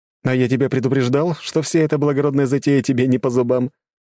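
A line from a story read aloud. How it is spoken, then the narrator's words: Reproachful snort. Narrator (Russian): с упреком хмыкнул Макс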